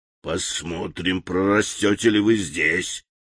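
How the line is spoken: Angry mutter. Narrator (Russian): зло пробормотал он

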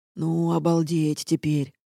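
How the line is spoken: Muttered. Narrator (Russian): пробормотала ажурная сфера

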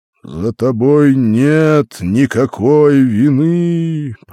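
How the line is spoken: Thundering voice. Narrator (Russian): прогремел голос

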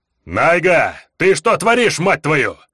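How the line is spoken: Cursing through clenched teeth. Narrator (Russian): Эльфийка чертыхнулась сквозь зубы

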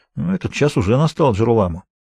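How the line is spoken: Mutter. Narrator (Russian): пробормотал Спинола

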